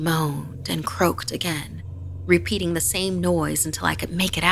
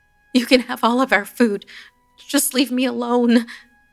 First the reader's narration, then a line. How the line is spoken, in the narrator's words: I pleaded